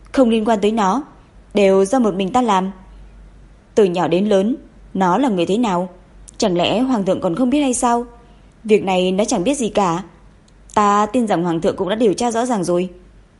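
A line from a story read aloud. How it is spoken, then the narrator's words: Loud. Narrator (Vietnamese): Bà ta lớn tiếng nói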